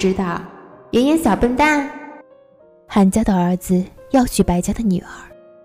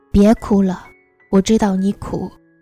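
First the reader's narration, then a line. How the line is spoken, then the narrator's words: Sighing. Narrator (Chinese): 阿木叹了口气，才说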